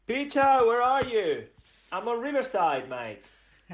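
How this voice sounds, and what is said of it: Attempted British accent. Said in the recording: “attempt to have a British accent”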